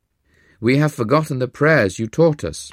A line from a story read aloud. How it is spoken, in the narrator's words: cried